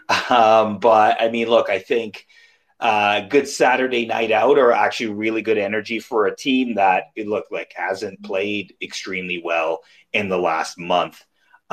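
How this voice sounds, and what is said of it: Rough, hoarse voice. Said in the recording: “forgive my voice? I did capo the game in 116 for Kings of the North. So my voice is a little rough”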